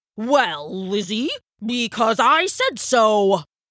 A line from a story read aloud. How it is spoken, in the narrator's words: roared the Elder before anyone could think to agree with her